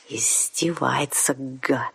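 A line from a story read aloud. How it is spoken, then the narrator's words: Hateful hiss. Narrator (Russian): с ненавистью прошипел вампир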